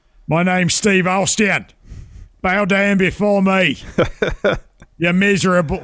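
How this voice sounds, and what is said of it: Put-on English accent. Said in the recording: “start speaking with the English accent”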